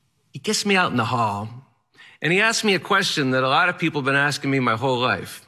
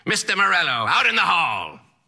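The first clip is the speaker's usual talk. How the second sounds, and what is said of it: Yelling in strange eccentric accent. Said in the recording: “He has a strange, eccentric accent, and he yells at me”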